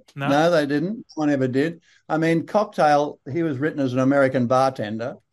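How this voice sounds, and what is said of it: Strong broad Australian accent. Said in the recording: “you got a really broad Australian accent. Like, it's really strong.”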